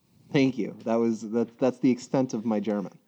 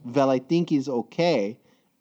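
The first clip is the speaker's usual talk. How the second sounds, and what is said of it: Heavy German accent. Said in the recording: “in her very hard German accent”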